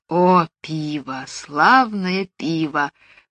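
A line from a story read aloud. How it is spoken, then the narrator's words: Mutter. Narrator (Russian): пробормотала Джулия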